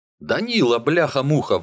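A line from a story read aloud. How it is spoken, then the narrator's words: Foreman's sudden joyful yell. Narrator (Russian): вдруг радостно орет бригадир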